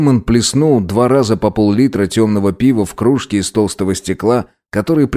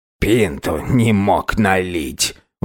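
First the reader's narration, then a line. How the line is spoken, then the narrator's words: Old man grumbling. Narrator (Russian): ворчал старик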